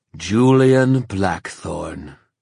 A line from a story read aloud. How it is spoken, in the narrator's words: drawled Fal